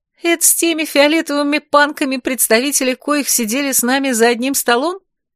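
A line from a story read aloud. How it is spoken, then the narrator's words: Giggling. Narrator (Russian): хихикнула я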